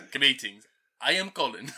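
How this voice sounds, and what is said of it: Put-on Russian accent. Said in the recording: “What about Russian? ... You did do like Russian once. Russian accent.”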